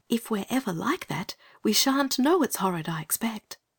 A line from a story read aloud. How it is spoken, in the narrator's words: Anthea, with some insight, whispered back